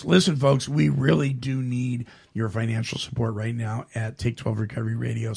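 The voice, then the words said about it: Strained, fading voice. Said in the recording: “I don't know where my voice is going, but it's going. So before it's gone completely”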